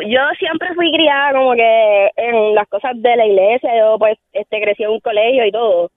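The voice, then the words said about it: Young, baby-like voice. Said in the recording (Spanish): “la voz de menor que tengo ... la voz de bebé”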